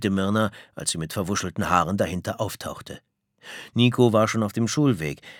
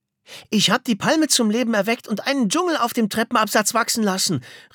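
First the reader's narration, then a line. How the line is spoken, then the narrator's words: Excited shout. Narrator (German): rief aufgeregt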